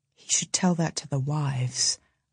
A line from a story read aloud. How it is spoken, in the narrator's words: Uvglen murmurs